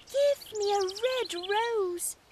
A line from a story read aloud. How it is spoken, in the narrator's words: cried